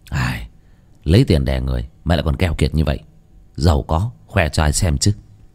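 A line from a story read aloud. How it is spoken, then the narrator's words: Grumbling mutter. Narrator (Vietnamese): lầm bầm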